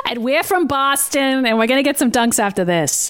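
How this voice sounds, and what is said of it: Strong Boston accent. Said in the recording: “That is the most Boston accent I've ever heard come out of you”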